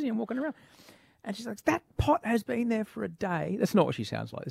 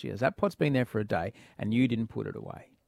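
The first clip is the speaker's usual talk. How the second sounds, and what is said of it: Calm imitation of his wife's voice. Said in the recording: “This is just me doing her voice... You're very calm the way you're saying it. I reckon three octaves higher.”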